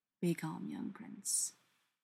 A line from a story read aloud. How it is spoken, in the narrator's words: Castiel murmurs